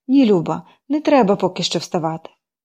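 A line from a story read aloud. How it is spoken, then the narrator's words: Tender comforting, aunt. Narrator (Ukrainian): почала ніжно втішати тітка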